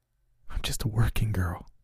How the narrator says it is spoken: whispered, shaking mightily

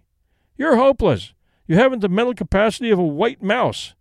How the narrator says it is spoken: he cried

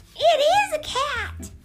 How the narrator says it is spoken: cried Melissa

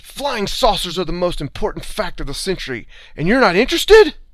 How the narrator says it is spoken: he yelled

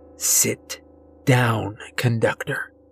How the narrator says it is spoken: she hisses

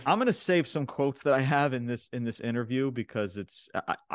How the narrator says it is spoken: I laughed

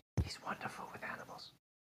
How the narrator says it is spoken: Nisby whisper into Aaliyah's ear

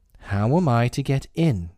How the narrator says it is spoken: asked Alice again in a louder tone

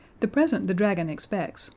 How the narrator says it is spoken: said Uncle James cheerfully

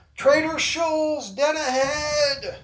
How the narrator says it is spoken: Hal yells out

